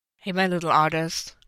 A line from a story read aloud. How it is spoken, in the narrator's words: Matt hummed